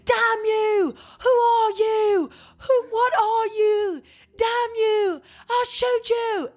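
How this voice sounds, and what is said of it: Screamed lines in a put-on accent. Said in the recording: “Francis screams ... I'm gonna do it in his, what I feel like his accent probably sound like”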